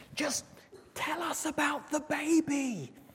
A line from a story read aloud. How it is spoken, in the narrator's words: So the wise man, of course, being wise, he whispered back again for all to hear